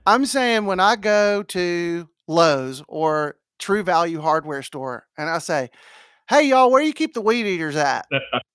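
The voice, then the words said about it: Southern American accent. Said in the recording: “you have an accent ... Southern accents”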